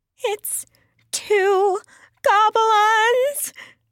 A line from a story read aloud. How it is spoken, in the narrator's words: she gasped